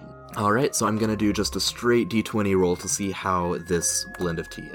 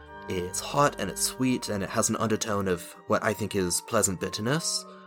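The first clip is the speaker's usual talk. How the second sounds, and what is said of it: Put-on Australian drifting to English accent. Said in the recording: “I bled from Australian into English ... I forgot this guy is supposed to have an English accent, not an Australian one”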